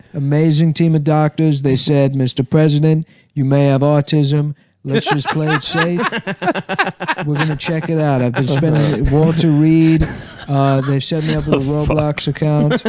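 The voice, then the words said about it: Imitates another person's voice. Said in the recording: “The impression isn't even that good of an impression ... It's pretty good.”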